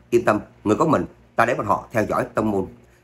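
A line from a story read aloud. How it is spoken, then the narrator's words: Shout. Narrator (Vietnamese): Trác Phàm quát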